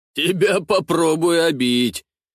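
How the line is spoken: Laughing. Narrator (Russian): рассмеялся Ростислав

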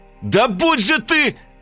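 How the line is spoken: Shouting into emptiness. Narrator (Russian): Крикнул я в пустоту

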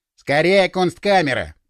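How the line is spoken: Muttering. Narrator (Russian): пробурчал Стас

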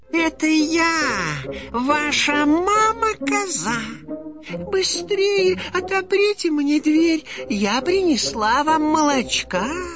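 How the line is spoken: Thin high-pitched voice. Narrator (Russian): сказал волк тоненьким голосом

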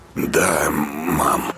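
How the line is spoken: Hoarse. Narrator (Russian): хрипло отозвался Артем

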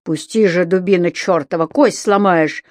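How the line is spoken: Growled. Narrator (Russian): рычал и изгибался тот

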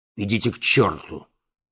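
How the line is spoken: Rude. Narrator (Russian): грубо сказал Балаганов

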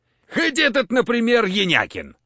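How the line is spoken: Sighing. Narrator (Russian): вздохнул Замазурин

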